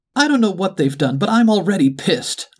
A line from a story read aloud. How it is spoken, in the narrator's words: the duck exclaimed